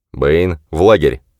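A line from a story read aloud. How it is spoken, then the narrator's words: Sharp command. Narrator (Russian): резко скомандовал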